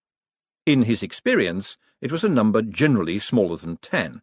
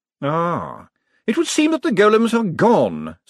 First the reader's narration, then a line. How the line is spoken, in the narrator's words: said Veterinary cheerfully